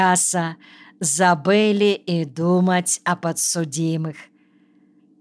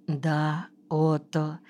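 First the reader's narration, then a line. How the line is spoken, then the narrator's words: Barely audible. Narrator (Russian): чуть слышно ответила она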